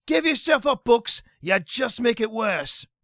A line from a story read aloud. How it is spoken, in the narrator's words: he shouted